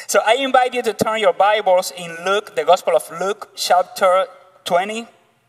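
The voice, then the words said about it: Cuban Spanish accent. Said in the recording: “my Cuban accent”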